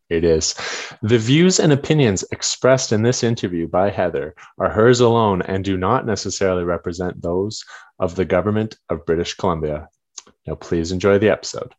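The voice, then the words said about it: Pharmaceutical sales rep voice. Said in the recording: “best pharmaceutical sales rep impression”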